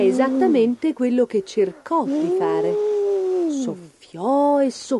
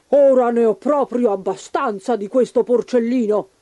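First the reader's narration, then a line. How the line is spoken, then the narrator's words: Hungry wolf growling. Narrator (Italian): ringhiò il lupo affamato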